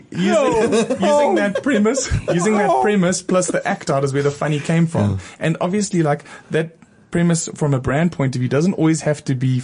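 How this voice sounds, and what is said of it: South African accent. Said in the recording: “I'm from South Africa. And that's why I have this strange accent... they're hearing something funny coming out of my mouth, but I have an accent because I'm from South Africa”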